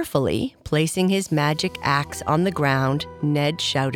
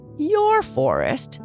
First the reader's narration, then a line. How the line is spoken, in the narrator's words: laughed Ned